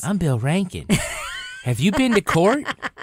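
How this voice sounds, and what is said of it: Imitates another person's voice. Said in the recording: “you do an amazing Bill Rankin podcast voice”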